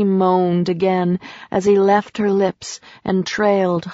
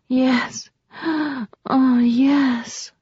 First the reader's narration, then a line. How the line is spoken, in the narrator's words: she murmured